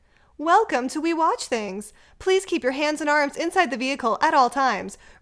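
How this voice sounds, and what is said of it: Put-on Disney character voice. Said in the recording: “my Disney voice.”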